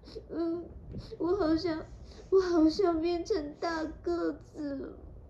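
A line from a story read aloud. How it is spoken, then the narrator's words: Crying, sniffling. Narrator (Chinese): 小狮子啊，哭哭啼啼的说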